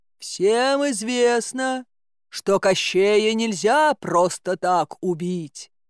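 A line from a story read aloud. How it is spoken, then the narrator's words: Thunderous proclamation. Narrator (Russian): громовым голосом возвестил он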